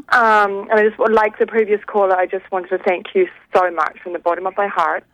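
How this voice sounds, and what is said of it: New Zealand accent. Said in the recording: “I love your accent. ... Originally from New Zealand ... I love that you still have your accent. It's gorgeous.”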